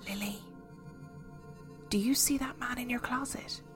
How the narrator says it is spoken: my friend beside me whisper hesitantly

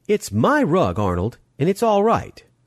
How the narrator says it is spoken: said sharply

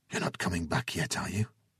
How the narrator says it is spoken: Lana asked quietly

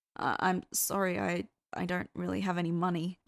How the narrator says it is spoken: Cass stammered

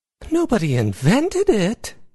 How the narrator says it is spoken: Izzy exclaimed

